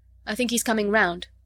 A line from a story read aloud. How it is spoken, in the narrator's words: said Vorongil's voice